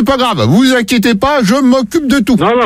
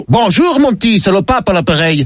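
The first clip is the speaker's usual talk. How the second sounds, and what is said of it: Put-on accent playing the Pope. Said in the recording (French): “pourquoi cet accent? C'est parce que je suis le pape Léon de Bruxelles.”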